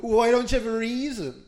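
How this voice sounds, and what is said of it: Whiny mocking voice. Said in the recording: “In that whiny voice.”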